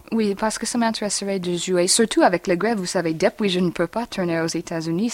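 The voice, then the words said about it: Foreign accent speaking French. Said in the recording (French): “Je suis déterminée de perdre mon accent, si je peux.”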